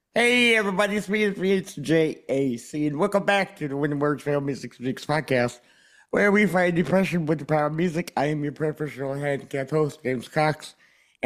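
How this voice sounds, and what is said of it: Hoarse, froggy voice. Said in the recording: “my voice has a frog in it ... I don't know what's wrong with my voice.”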